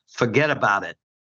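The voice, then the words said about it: Put-on Brooklyn accent. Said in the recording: “I'm going to do my best Brooklyn accent here”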